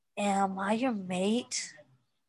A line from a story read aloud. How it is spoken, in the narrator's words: Derek groaned, and Styles could tell he was blushing just from the sound of his voice